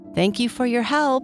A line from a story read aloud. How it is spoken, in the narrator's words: Sparkle said